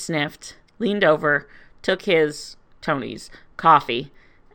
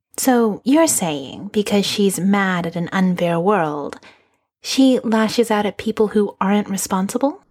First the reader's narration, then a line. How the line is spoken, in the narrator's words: Natasha asked sweetly